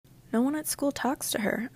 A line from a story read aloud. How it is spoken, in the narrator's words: I murmured